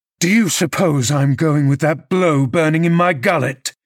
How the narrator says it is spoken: he thundered

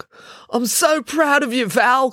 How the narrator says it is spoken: cried Russ

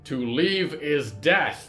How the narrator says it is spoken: roared the Queen of the Drowned

